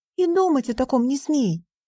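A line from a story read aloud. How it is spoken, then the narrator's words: Sharp reply. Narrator (Russian): резко ответила Ориона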